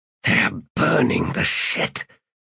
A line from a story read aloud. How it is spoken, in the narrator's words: Skintik hissed